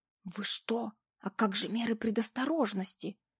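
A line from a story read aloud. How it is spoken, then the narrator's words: Menacing whisper. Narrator (Russian): грозно зашептала я своему клиенту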